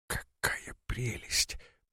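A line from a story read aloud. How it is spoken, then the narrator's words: Whisper. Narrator (Russian): прошептала Бодростина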